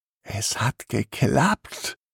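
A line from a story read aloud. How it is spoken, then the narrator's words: Excited whisper. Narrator (German): flüstert Timmy begeistert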